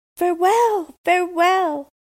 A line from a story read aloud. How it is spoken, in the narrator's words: cried the prince and princess